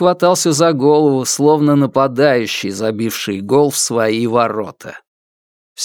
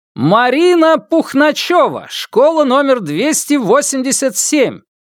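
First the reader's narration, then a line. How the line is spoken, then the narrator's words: Man yelling like child. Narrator (Russian): Основательный, насмешливый, рассудительный резник скакал и орал, как первоклашка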